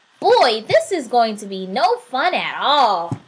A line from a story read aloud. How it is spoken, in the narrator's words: grumbled the little soul